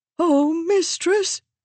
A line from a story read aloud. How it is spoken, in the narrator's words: Wendell cried